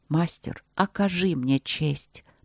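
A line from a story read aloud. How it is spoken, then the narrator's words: Quiet. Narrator (Russian): проговорил он тихо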